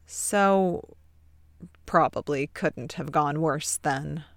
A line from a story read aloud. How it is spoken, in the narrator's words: Ted concludes sadly